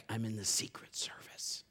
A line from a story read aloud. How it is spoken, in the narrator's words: He whispered back